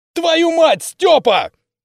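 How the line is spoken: Shouted. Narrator (Russian): крикнул я

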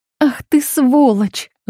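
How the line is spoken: Breathed out. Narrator (Russian): выдохнула Лариса

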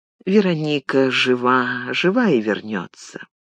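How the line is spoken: Whisper, holding back tears. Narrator (Russian): сдержалась, не заплакала, когда услышала о смерти, прошептала

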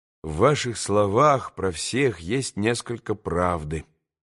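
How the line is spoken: Quiet. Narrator (Russian): проговорил тихо Алеша

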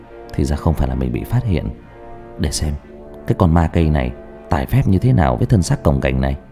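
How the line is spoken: Muttering. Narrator (Vietnamese): Thông lẩm bẩm

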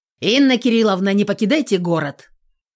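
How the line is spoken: Shout. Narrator (Russian): крикнул кто-то

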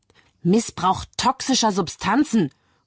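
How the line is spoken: Prosecutor interjecting. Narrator (German): ruft Staatsanwalt Bell dazwischen

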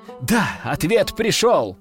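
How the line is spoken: Joyful exclamation. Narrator (Russian): радостно воскликнул тот

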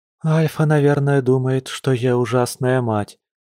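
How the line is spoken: Upset moan. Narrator (Russian): огорченно простонала волчица

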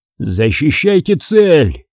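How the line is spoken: Roared. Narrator (Russian): проревел Курланд

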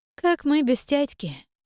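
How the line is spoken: Sighing girl's reply. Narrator (Russian): вздохнув, ответила девушка

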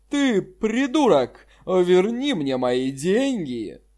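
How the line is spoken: Roaring. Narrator (Russian): взревел его собеседник

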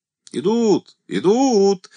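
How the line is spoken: Soldiers shouting. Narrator (Russian): закричали красноармейцы

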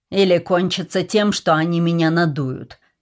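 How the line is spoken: Snapping retort. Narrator (Russian): огрызнулся он

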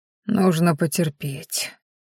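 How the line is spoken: Ingratiating whisper. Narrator (Russian): вкрадчиво прошептал Ранхаш

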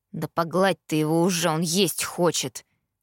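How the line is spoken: Mumbling. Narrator (Russian): пробормотал Итан

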